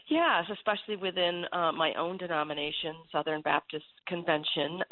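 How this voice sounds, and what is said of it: Congested, stuffy voice. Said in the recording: “lots of allergies here in Virginia ... you can hear in my voice that I'm having a little bout with them right now”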